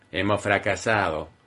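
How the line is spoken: Grumbled. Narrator (Spanish): refunfuñó Keith

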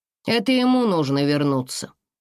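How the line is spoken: Cold reply. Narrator (Russian): холодно ответил сын

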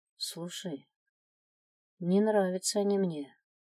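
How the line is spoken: Quiet. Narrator (Russian): тихо произнес Стив

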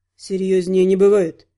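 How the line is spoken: Gruff mutter. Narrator (Russian): буркнул боевик

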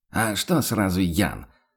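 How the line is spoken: Snapping retort. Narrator (Russian): огрызнулся охотник

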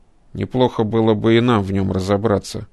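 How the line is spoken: Grumbling. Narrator (Russian): проворчал кибернетик

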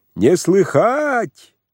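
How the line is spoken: Loud, sing-song. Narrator (Russian): ответил громко и нараспев Пантелей

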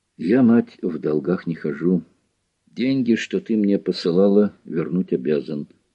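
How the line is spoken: Quiet. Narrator (Russian): Николай тихо сказал

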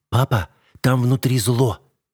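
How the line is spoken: Hurried mutter. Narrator (Russian): торопливо пробормотала Лили

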